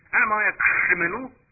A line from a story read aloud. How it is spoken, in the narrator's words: he exclaimed